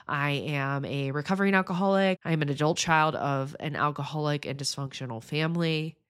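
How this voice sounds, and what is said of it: Slightly nasal, congested voice. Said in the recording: “I have a little bit of a cold if I sound a little bit nasally”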